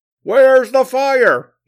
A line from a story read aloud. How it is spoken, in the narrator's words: he screamed